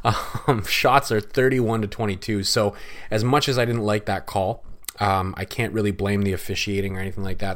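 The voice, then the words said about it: Hoarse, strained voice. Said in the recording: “<clears throat> I'm losing my voice as I'm doing this.”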